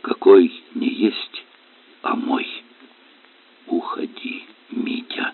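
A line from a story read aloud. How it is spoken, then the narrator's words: Quiet repetition. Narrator (Russian): Тихо повторила великореченица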